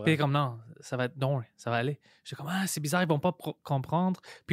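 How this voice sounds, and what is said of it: Non-native accent in French. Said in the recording (French): “quelqu'un qui parle une langue qui n'est pas la sienne... ton, accent, il est charmant”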